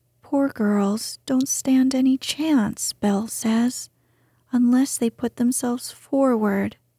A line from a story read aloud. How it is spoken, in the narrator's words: sighed Meg